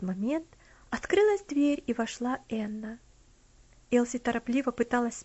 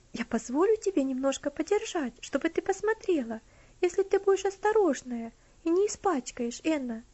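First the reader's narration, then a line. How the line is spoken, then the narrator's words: Gentle affectionate offer. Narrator (Russian): Тем же ласковым тоном предложила Элси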